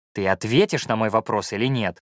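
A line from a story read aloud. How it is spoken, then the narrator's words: Embarrassed mutter. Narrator (Russian): пробурчал я, покраснев до корней волос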